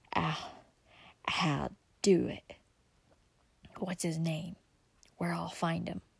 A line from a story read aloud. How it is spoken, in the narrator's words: he answered in a hoarse whisper